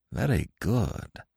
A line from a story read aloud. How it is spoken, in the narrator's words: muttered Nayland Smith